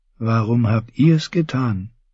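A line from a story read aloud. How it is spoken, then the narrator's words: Asked softly. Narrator (German): fragte Lancel leise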